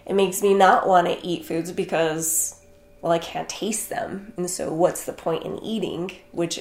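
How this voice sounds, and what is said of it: Slightly froggy, congested voice. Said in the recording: “I don't know if you can hear it in my voice, but I'm a little bit froggy today just because I haven't been able to breathe”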